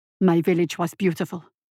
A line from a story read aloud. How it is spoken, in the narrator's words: Julong replied, his voice shaking